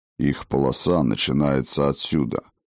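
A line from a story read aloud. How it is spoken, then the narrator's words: Grim, unguarded remark. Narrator (Russian): мрачно бросил Йотун, ничуть не заботясь, что их услышат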